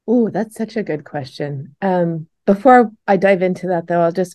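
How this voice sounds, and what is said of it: Slightly rough, sticky-sounding voice. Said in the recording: “my voice might sound a little bit different because I'm just coming out of surgery... if I sound a little weird today or if I need to clear my throat a few times... A, a, little gooey, a little sticky”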